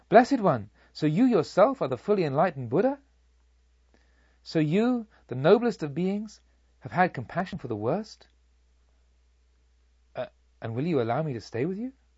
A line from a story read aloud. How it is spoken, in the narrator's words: I exclaimed